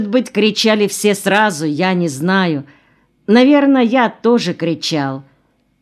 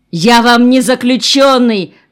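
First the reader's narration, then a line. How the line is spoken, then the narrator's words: Shouting. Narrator (Russian): кричал Гришка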